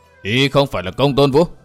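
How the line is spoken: Harsh, stressed voice. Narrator (Vietnamese): Kinh Hồng gằn giọng nói

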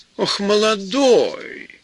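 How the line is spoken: Exclaiming. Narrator (Russian): воскликнула она

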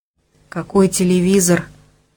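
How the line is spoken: Mumbled, voice out of control. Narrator (Russian): промямлил Денис, хотя не контролировал ни голоса своего, ни слов

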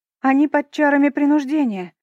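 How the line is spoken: Shouted. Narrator (Russian): крикнула я

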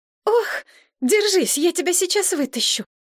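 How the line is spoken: Exclaimed. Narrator (Russian): воскликнула Мария

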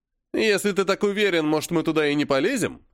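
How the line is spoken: Snide question. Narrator (Russian): ехидно спросил он

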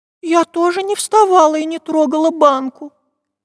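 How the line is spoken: Squeak. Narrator (Russian): пискнула Настенька

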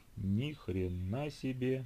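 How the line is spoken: Breathless exhale. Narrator (Russian): выдохнул Тимон

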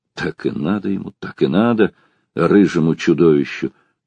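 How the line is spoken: Spiteful humiliated whisper. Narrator (Russian): шептал Бобров, ощущая такой прилив злобы и такое глубокое сознание своего унижения, что даже во рту у него пересохло

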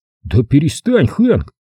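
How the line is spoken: Snapping retort. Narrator (Russian): огрызнулся Том

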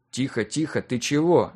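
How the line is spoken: Fearful mutter. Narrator (Russian): забормотал я, пытаясь задавить колыхнувшийся внутри страх

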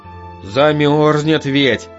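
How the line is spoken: Grown-up sigh. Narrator (Russian): По-взрослому вздохнул Санька

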